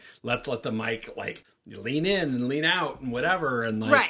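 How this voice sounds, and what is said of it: Usual voice. Nothing is said of it.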